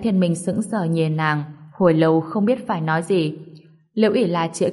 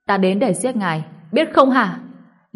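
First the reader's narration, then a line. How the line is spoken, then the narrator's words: Sudden scream. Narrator (Vietnamese): Liễu Ỷ La đột nhiên hét lên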